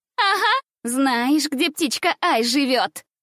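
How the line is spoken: Loud laughter. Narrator (Russian): Захохотала во весь голос Шалунья

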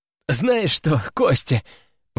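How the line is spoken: Breathless after laughing. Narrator (Russian): выдохнул он, когда сил смеяться больше не осталось

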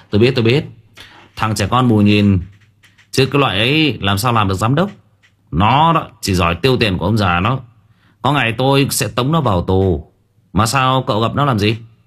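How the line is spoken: Laughing. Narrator (Vietnamese): Vũ bật cười

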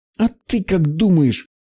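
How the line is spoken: Forced-out words, girl. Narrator (Russian): выдавила девушка

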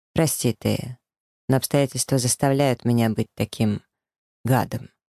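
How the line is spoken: Serious tone. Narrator (Russian): говорит он серьезным тоном

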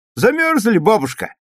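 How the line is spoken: Cheerful question. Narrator (Russian): весело спросил Юра

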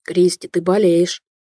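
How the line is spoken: Hoarse breathless. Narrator (Russian): хрипло выдохнул Летунов между поцелуями

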